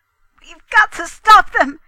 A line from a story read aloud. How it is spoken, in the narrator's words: he cried